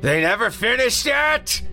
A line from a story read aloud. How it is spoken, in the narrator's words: the creature screamed